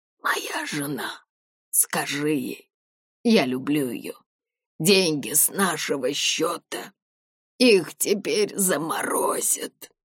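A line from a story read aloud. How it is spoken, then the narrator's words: Wheezing, hoarse. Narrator (Russian): хрипел он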